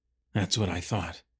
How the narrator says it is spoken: Laban muttered

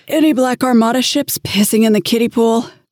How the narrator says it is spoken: I asked through a prolonged yawn

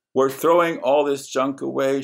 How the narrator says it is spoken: she said

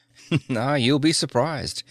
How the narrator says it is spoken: Tyler chuckled

